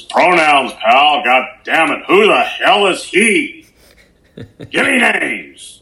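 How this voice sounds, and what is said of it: Vince McMahon impression. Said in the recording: “your Vince McMahon impression”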